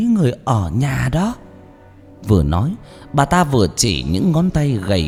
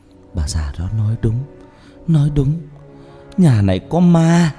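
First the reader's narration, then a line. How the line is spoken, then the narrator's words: Moaning. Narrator (Vietnamese): Bà Loan rên rỉ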